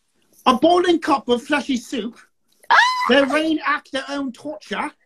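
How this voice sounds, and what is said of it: Bad put-on British accent. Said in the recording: “read that with an English accent ... the worst British accent in the fucking world”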